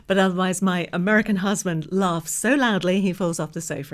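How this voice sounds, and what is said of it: English accent. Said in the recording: “you might be able to tell from my accent that I was actually born here ... Welcome to England”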